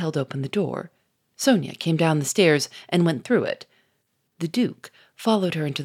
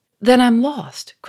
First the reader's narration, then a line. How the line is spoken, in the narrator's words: cried Sonia in a panic-stricken voice